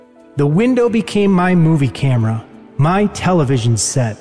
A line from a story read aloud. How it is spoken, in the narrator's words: he said